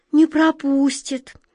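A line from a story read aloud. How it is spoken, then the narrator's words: Dejected repetition. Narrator (Russian): упавшим голосом повторила Глазастик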